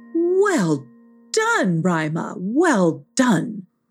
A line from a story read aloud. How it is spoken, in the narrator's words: exclaimed Miss Wigglebutt